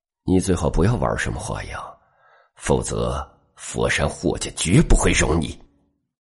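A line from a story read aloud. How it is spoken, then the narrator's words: Cool and cold. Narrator (Chinese): 霍雷则是淡淡冷冷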